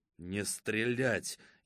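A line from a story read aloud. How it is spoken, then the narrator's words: Furious whisper. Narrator (Russian): яростным шепотом сказал Богданов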